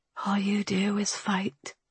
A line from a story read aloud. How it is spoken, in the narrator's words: whispered